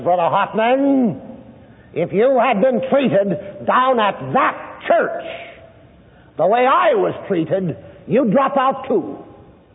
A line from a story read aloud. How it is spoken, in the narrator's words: out between his teeth, he says to me with a rasp in his voice, he says